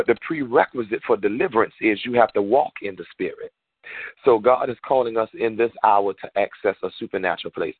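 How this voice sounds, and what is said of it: Southern US Georgia accent. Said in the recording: “I'm calling from Georgia, so to many of you, I might have a slightly different accent”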